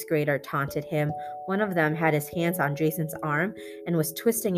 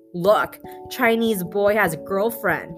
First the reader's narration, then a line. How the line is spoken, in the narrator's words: exclaimed